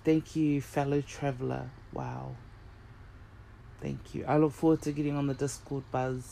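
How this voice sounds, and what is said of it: Speaks with an accent. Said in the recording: “I hope you can understand my accent.”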